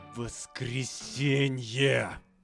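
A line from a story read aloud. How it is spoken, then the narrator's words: Forced out, threatening. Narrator (Russian): С трудом выдавил он из себя, и в тоне его слышалась угроза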